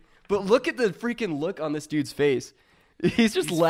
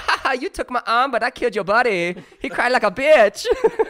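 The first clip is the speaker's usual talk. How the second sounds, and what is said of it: Bad put-on Vietnamese accent. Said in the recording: “That is the worst accent again. ... I can't even describe what it sounds like, but it doesn't sound like a Vietnamese accent.”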